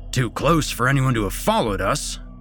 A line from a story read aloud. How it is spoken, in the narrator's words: snorted